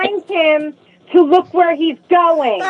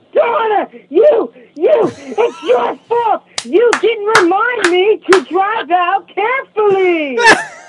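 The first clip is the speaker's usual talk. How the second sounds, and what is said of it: Imitates another person screaming. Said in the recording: “your impression of how he screams your name out”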